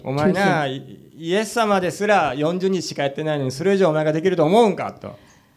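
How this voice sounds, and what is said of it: Put-on Osaka dialect. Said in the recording (Japanese): “なぜか大阪弁になります”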